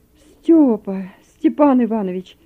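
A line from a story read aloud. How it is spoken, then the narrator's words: Exclaimed. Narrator (Russian): воскликнул Захар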